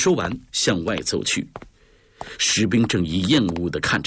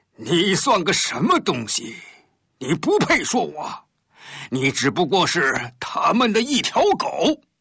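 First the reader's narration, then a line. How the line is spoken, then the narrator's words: Sudden loud laughter. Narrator (Chinese): 突然大笑了起来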